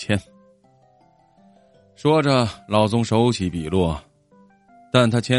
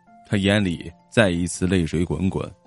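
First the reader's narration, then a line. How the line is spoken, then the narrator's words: Murmuring. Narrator (Chinese): 老宗 喃喃的说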